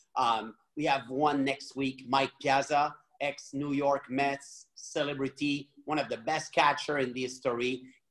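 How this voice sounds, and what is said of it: French accent. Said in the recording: “fancy man with his French accent”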